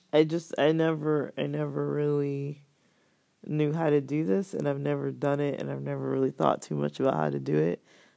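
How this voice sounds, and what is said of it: Strained, fading voice. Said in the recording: “I'm totally losing my voice.”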